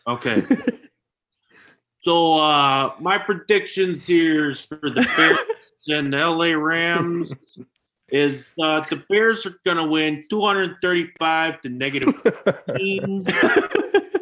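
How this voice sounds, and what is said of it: Very thick Chicago accent. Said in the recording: “the deepest, thickest Chicago accent you've ever heard”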